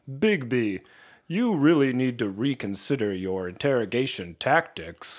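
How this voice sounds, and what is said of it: Impression of Bluebeard, mock-authoritative. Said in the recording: “I don't even know if I can do an impression of him... he was trying to be authoritative”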